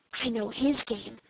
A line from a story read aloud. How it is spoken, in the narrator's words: whispered Dick